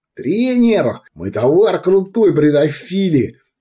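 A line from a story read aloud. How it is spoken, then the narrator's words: Cheerful yelling. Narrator (Russian): весело заорал Уйбуй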